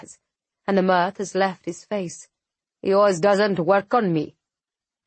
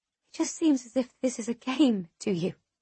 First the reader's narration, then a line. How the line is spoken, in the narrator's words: I whisper